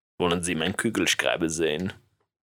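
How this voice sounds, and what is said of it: Put-on German accent. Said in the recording (Dutch): “Duits accent”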